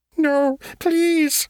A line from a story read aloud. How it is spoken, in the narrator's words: the creature whined